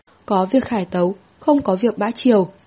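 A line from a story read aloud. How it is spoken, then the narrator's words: Old eunuch, raised voice. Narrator (Vietnamese): Lão thái giám cất cao giọng nói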